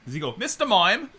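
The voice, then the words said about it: Put-on British accent. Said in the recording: “British accent”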